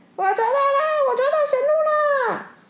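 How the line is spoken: Loud excited shout. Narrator (Chinese): 只听见蛇医 大喊

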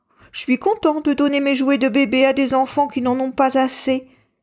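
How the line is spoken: Satisfied exclamation. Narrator (French): s'exclame Pablo d'un air satisfait

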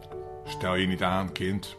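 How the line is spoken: Witch grumbling. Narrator (Dutch): bromde de heks

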